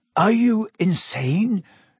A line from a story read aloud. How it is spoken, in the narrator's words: said Harry, his voice easily as croaky as Black's